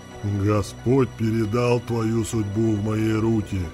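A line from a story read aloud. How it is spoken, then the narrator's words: Mocking hiss. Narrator (Russian): насмешливо зашипел в темноте голос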